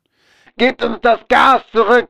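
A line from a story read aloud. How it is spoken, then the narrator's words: Repeated shouting. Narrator (German): schrien immer und immer wieder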